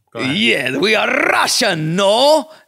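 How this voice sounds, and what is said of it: Put-on Russian accent, Borat-like. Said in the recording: “can you do a Russian accent? ... No, that's kind of Borat.”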